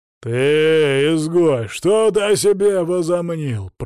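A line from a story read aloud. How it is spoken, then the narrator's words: Growling. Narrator (Russian): прорычал он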